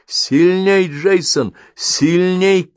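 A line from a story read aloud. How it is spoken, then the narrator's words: Shout. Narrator (Russian): крикнул ученый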